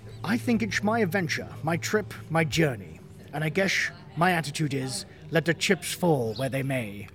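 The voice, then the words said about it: Imitates another person's voice, wandering accent. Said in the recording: “Where's that going? That accent.”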